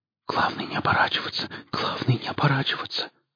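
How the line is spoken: Whispered. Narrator (Russian): шептал Жорик

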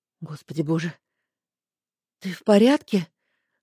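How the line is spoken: Flustered, breathless. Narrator (Russian): Растерянно выдохнула

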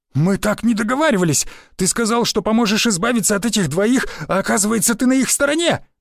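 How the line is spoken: Shouted. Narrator (Russian): выкрикнул он, пятясь

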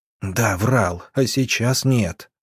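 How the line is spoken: Loud whisper. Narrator (Russian): громким шепотом произнес он

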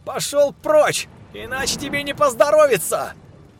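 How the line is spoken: Yelling over thunder. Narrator (Russian): Перекрикивая рокот грома, заорал Сергей

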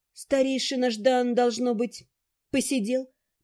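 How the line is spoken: Muttering. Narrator (Russian): пробормотала

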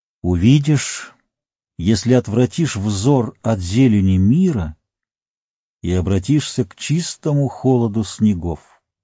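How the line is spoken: Solemn. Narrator (Russian): торжественно произнес Гэндальф

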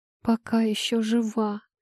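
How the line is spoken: Moaning. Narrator (Russian): простонала рыжая

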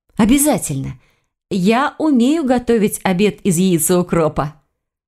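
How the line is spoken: Forced cheerful, no sarcasm. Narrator (Russian): Она постаралась, чтобы прозвучало это весело и без сарказма

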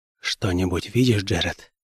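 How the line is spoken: Very quiet, barely articulate. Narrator (Russian): проговорил я очень тихо, на пределе способности формировать слова

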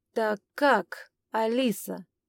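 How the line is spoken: Insinuating, insistent pressing. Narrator (Russian): вкрадчиво наседал

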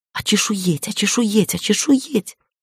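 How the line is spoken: Whisper. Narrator (Russian): зашептала Шири

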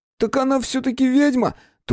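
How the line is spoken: Exclamation or question. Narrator (Russian): то ли выкрикнул Витька просто так, то ли задал вопрос

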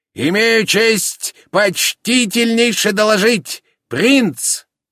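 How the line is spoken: Cheerful shout, burring r's. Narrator (Russian): прокричал задорно картавя

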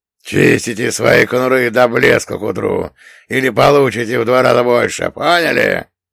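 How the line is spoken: Barked harshly. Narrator (Russian): рявкнул Одноглазый

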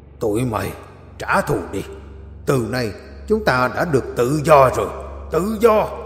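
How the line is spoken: Growling. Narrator (Vietnamese): đại quỷ gầm gừ nói

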